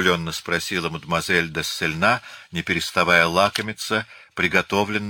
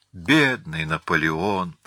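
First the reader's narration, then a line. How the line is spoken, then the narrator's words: Hypocritical sigh. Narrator (Russian): лицемерно вздохнула Фортюне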